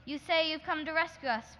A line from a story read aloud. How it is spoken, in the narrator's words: people shouted